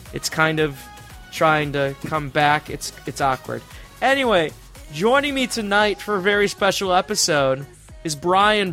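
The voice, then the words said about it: Hoarse, partly lost voice. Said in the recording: “I've lost my voice somewhat”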